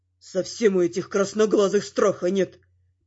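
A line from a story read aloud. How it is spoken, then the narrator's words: Grumbling demon. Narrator (Russian): проворчал один из демонов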